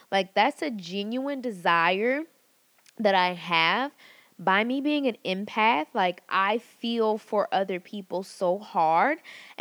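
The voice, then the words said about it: Excited, energetic, pumped-up delivery. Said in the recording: “you guys can probably hear it in my voice. I'm like super, super pumped, like ready to go. Like I got so much spice and fire in me right now”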